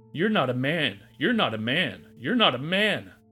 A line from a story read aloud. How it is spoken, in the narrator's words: Alfredo shrieked